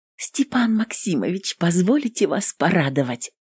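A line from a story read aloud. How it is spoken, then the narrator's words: Whisper. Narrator (Russian): Прошептала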